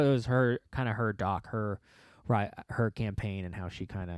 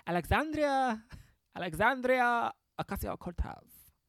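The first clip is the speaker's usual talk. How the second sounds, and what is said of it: Imitates another person's voice. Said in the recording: “let me do it like how she would want me to do it ... this is how you want me to do your voice ... I'm not doing a good impression of her”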